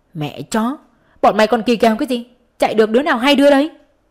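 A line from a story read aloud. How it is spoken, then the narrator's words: Several voices shouting. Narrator (Vietnamese): Cả Thắm, Linh, Nhi đều la lên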